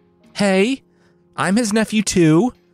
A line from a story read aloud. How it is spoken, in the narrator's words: Yvain called out